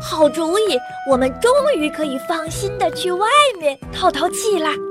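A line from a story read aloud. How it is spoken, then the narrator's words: High-pitched, excited. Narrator (Chinese): 声音高了八度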